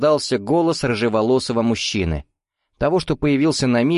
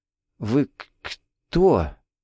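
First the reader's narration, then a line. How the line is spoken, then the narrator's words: Shocked stammer. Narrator (Russian): Заикаясь от шока, выдавила Тильда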